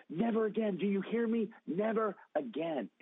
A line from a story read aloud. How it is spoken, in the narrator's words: I yell it again